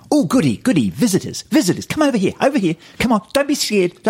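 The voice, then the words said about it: Imitates another person's voice. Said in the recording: “my Rhys Darby impression”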